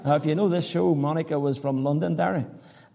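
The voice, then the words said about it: Irish accent. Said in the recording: “a lady heard my accent ... I'm from Ireland”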